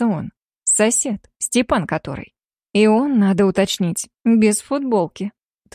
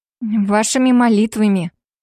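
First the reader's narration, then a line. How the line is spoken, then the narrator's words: Through gritted teeth. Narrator (Russian): Цежу сквозь зубы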